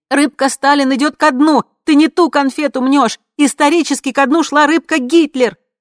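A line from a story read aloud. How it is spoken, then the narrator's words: Shouting from another room. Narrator (Russian): подруга кричала из гостиной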